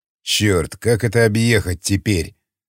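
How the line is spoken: Grumbling. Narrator (Russian): проворчал Яхонтов

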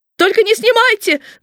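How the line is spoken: Shout. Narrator (Russian): закричал он

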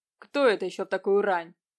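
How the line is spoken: Displeased grumble. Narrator (Russian): пробурчал недовольно Нелидов

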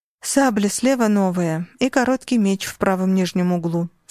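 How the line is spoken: Plain. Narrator (Russian): сказала я

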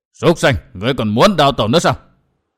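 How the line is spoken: Thunderous shout. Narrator (Vietnamese): một tiếng quát như sấm rền vang lên

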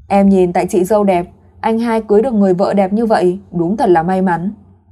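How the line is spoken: Smiling. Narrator (Vietnamese): mỉm cười nói

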